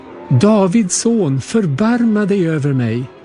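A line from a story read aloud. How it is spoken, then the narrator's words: Shouting even louder. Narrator (Swedish): ropade bara ännu mer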